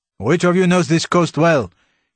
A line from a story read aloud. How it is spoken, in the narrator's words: he shouted to his men